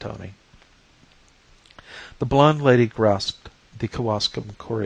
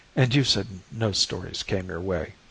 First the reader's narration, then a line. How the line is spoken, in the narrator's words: I murmured reproachfully